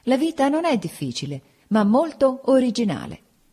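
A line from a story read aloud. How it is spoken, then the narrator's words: Laughing, holding back emotion. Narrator (Italian): per sottrarmi alla commozione che minacciava anche me, dissi ridendo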